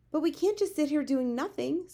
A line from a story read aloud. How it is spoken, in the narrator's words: Sophie cried